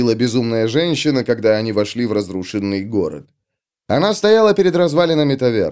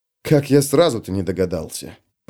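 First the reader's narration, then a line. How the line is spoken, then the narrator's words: Mutter. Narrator (Russian): пробормотал Феликс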